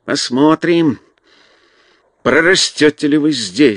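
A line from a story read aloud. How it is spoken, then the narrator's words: Spiteful mutter. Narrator (Russian): злобно пробормотал он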